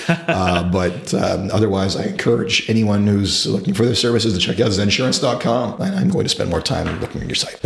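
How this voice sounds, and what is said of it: Raspy, hoarse voice. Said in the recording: “if they can make it through my raspy voice ... I apologize for my voice”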